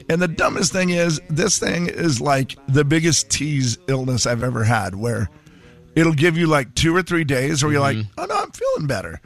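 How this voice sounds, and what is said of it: Voice sounds funny, sick. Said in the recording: “why does my voice sound funny again? ... I can't stop coughing again ... your voice is sounding funny”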